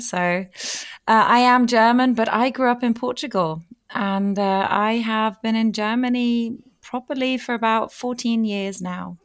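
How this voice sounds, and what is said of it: Mixed accent, doesn't sound German. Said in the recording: “My accent deceives me. ... It really does. ... A variety of accents, though.”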